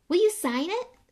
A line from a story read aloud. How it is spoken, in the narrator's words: said Colin eagerly